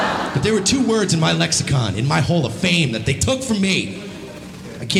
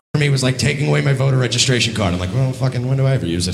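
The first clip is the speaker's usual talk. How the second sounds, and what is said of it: Colin Quinn-like voice, breathless ending. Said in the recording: “That voice, he just did Colin Quinn. ... That's Colin Quinn. ... The way he becomes breathless at the end, that's Colin Quinn, that's Jim Norton. ... That breathless thing there.”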